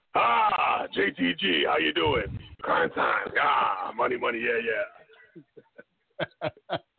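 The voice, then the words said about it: Impression of Vince McMahon. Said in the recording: “give me a good Vince impression, even if you butcher it.”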